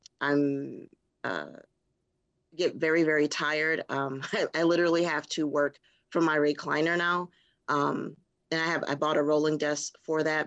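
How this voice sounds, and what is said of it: Raspy, hoarse voice. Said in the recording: “as you can kind of hear, my throat is still kind of raspy”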